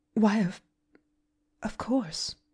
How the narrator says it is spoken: faltered Miss Polly

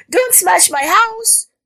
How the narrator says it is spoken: she screamed

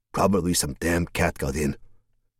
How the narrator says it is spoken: muttered to himself

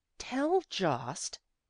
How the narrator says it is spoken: she said scornfully

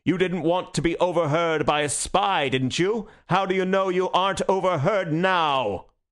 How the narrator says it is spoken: he roared

